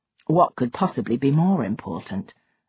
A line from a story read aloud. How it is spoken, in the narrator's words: Mark asked dryly